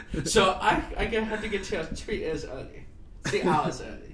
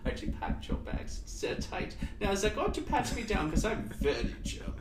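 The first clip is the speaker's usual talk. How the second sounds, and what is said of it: Put-on German accent. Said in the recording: “You do that accent very well, dude. ... I had a German grandmother. Of course I know that accent.”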